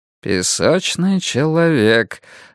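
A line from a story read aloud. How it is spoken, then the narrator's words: Thoughtful repetition. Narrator (Russian): задумчиво повторил Поллок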